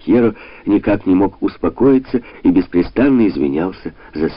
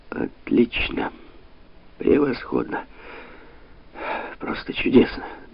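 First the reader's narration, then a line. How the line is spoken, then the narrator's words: Muttering. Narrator (Russian): пробормотал де Пальма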